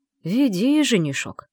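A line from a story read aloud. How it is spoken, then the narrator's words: Grumbling. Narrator (Russian): проворчал один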